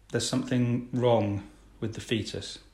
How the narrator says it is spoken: gravely, the doctor says

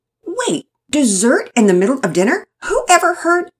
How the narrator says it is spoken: began, but caught herself and stopped

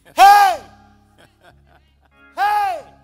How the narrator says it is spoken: hollering

